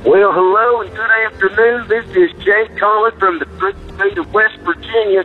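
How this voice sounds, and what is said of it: Poor put-on West Virginian accent. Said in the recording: “that's probably way off of a West Virginian accent”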